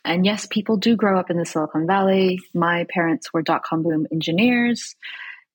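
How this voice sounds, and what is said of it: Californian Silicon Valley accent. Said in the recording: “I grew up in the Silicon Valley, which is hence the accent.”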